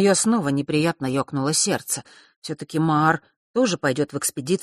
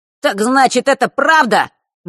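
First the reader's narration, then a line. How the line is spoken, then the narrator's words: Sudden shrill squeal. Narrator (Russian): неожиданно визгливо произнес Норт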